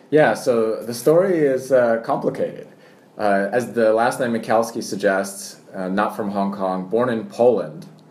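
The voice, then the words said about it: American accent. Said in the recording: “you will hear an American accent ... my American accent comes from watching too much American television”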